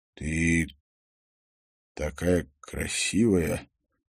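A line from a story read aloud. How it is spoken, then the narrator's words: Strangled, confused voice. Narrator (Russian): сказал он странно сдавленным голосом, полным смятения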